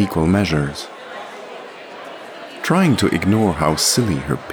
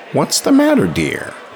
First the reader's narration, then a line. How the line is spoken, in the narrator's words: exclaimed the older woman